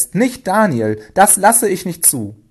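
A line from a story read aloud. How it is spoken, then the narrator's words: Horrified cry. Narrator (German): rief er entsetzt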